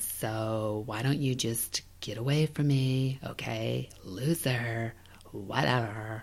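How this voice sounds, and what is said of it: Valley Girl voice. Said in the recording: “doing a Valley Girl voice for some reason. Because it's kind of a stock one that I can just pull out whenever ... This is just one that I've perfected”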